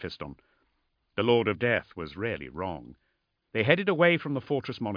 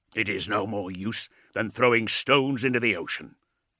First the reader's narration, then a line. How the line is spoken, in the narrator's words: growled Rasselas